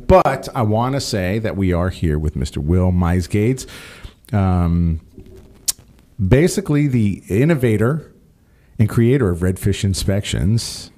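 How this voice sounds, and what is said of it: Slightly hoarse, froggy voice. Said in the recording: “my voice is sounding a little bit froggy ... it still has that little clarity there, so I'll take some time to clear it out”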